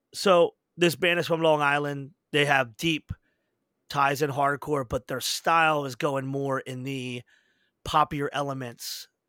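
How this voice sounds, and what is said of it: Philadelphia accent. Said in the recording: “we got the Philly accent, so we could fuck up anything. If it's got vowels, we're fucking it up.”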